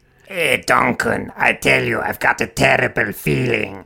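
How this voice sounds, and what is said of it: Goblin character voice. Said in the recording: “does his goblin voice.”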